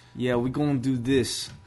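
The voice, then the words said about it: Half Bostonian, half rapper accent. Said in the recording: “half Bostonian, half stereotypical rapper accent”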